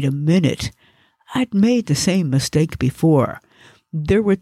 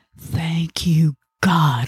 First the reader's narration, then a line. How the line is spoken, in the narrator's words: I whispered as tears burned down my cheeks